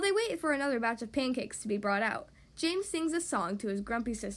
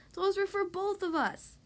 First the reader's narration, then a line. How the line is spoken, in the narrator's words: Amber cries